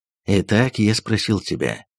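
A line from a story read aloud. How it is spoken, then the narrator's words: Soft. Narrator (Russian): мягко продолжал он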